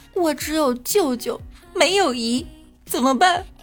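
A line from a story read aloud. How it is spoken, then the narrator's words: Tearful child's voice. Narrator (Chinese): 小孩哭丧着脸对导游说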